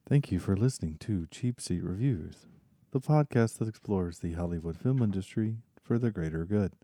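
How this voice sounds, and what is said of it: Southern American accent. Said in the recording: “you're too Southern. You got too much of a Southern accent ... you would be very, very Southern”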